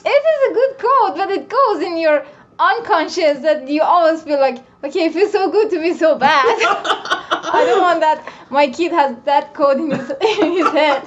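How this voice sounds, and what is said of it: Noticeable non-native English accent. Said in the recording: “I love your accent ... I thought you were saying coat”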